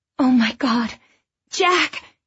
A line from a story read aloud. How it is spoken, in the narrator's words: Christina cried